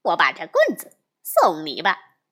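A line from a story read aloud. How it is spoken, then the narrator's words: Laughing. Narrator (Chinese): 笑道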